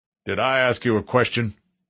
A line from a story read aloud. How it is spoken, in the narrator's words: the sergeant barked